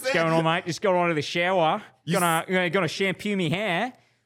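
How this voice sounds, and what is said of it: Put-on Australian accent. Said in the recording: “you're practicing your Australian accent”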